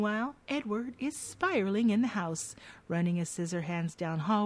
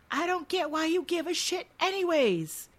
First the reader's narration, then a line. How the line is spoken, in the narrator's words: with Jim yelling after her